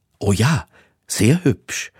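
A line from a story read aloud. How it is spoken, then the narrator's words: Stammering. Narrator (German): stammelte Hector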